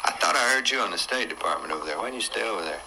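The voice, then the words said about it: Southern American accent. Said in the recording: “he has a southern accent”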